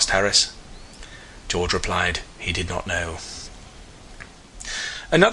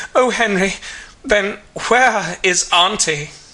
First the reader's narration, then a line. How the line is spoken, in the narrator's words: maiden recover from her surprise said wildly